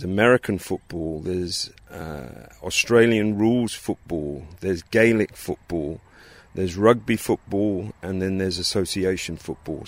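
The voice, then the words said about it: English accent. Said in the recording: “As you might be able to pick up from his accent, ... grew up in England.”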